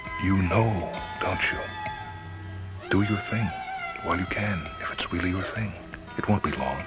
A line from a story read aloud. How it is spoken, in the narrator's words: she whispered